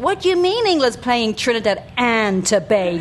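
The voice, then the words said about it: Fake American accent. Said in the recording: “your fake American accent”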